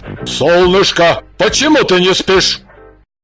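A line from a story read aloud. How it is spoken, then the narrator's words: Stern question. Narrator (Russian): Иван Семенович строго спросил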